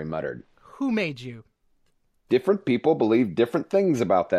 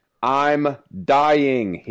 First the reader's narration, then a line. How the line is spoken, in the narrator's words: he shouted